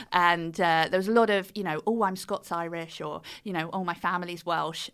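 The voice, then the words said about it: British accent. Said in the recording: “the British accent just did me so well over there ... after they'd heard my accent”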